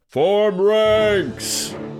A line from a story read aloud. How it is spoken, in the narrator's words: bellowed